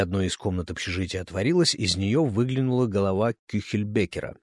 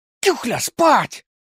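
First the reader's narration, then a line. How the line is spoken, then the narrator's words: Barked in unison. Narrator (Russian): В один голос рявкнули Пушкин с Донзасом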